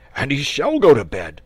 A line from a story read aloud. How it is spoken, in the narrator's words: cried the dragon, starting up